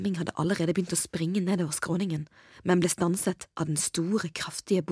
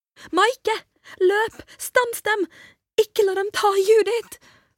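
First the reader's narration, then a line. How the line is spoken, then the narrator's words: Screaming. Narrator (Norwegian): skrek Hedda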